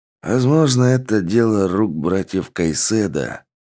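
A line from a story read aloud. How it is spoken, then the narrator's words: Sighing. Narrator (Russian): вздохнул Гарри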